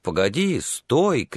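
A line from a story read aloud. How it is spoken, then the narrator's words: Shouting. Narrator (Russian): кричал он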